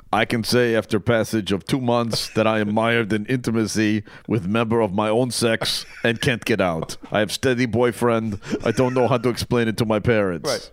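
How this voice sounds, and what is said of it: Put-on Russian accent. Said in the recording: “That is the best Russian accent I've ever heard anybody do.”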